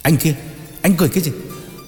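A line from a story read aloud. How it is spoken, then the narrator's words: Shout. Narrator (Vietnamese): quát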